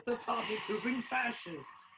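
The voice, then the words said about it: Put-on British accent. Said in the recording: “It gets better with the British accent.”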